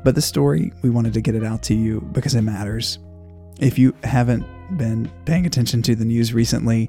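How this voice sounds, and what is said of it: Hoarse, raspy, lower voice. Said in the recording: “my voice sounds a little off today, a little hoarse or raspy or lower than usual... I'm sick”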